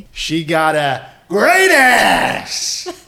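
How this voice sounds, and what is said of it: Loud shouted impression of an actor. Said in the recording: “top marks for that impression ... It sounded wonderful in this studio ... sorry to everyone there whose speakers have blown out, but that is how Pacino acts throughout that film”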